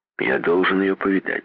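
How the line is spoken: Plain. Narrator (Russian): сказал он

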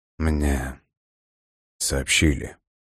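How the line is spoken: Gloomy. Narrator (Russian): мрачно произнес Кеву

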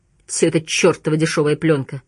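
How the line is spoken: Grumbled. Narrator (Russian): проворчал он

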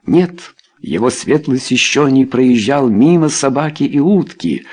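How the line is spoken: Plain. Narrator (Russian): ответил Кингслер

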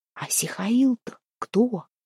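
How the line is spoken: Surprised whisper. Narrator (Russian): прошептала Устинья, удивленная появлением еще одного небесного заступника

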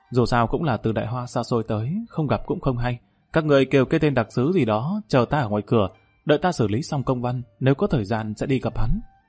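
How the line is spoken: Embarrassed quiet voice. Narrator (Vietnamese): Kim Đào Khả Hãn mặt mũi đỏ bừng nhỏ giọng nói

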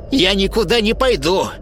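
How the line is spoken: Sharp old woman. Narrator (Russian): резко ответила старуха

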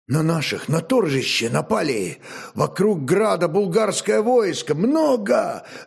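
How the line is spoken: Breathless blurt. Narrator (Russian): разом выдохнул

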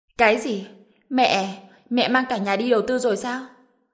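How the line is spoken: Shocked despairing shout. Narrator (Vietnamese): Trần Bình hét lên một tiếng, biết lần này đã mất trắng

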